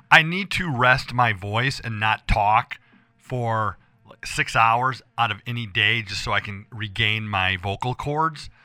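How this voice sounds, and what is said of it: Hoarse, rough voice. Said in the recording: “I lost my voice again. ... it sounds like it. It's getting kind of rough there. ... my voice is so hoarse I can't get the words out”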